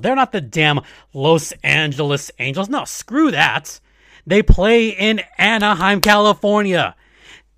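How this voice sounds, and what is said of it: Angry, irritated speaking voice. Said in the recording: “I'm pissed off. You can probably tell in my voice”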